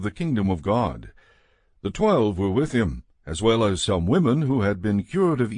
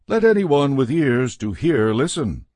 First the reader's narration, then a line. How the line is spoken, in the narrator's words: he called out